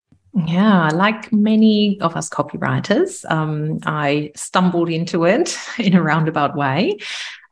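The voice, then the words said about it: German accent. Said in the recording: “I'm originally from Germany. You can probably tell by the accent.”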